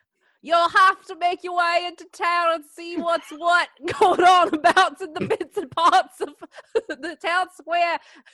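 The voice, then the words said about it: Put-on Australian accent, drifting. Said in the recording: “It's going down under. ... It's not bad. It's getting better. ... just stick to one accent, please. ... It's supposed to be Australian night.”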